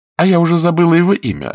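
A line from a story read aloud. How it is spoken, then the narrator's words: Fairly sharp reply. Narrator (Russian): ответила она довольно резко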